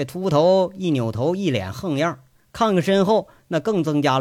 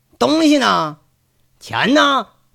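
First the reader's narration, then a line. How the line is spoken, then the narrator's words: Impatient shouting. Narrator (Chinese): 那人就好像是等的不耐烦了似的，一边走一边喊着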